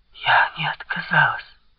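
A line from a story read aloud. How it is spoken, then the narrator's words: Whisper. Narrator (Russian): прошептала она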